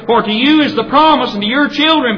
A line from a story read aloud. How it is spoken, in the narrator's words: Peter said